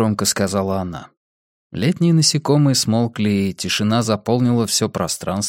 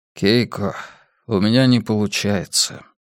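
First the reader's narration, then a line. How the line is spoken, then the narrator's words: Sighing. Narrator (Russian): вздохнул Хайнц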